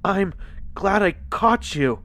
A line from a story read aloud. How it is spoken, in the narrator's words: I gasped as I struggled to catch my breath